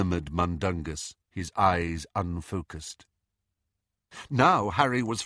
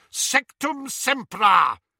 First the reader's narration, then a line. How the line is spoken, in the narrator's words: shouted Snape